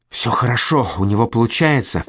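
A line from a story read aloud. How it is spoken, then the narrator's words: Child whispering. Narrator (Russian): прошептал мальчик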